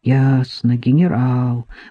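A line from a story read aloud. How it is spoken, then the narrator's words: Soothing mutter. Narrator (Russian): успокаивающе бормотал Аниканов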